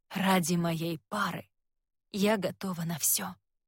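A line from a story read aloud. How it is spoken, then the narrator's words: Quiet. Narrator (Russian): тихо говорит она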